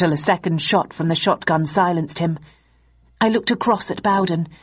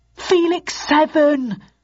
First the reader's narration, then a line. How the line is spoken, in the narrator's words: cried Archer desperately